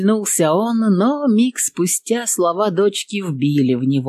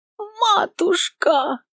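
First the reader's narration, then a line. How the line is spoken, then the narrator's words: Child's squeal. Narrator (Russian): пищала та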